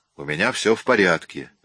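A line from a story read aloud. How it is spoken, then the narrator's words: Sharp reply. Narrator (Russian): резко ответил я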